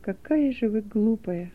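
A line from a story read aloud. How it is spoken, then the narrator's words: Muttered. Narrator (Russian): пробормотал он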